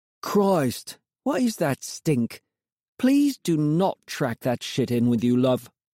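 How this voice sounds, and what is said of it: Undisguised Cockney accent. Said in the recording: “the voice within was unmistakable. Cockney accent, undisguised.”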